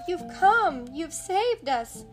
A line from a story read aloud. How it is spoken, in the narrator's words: cried Minnie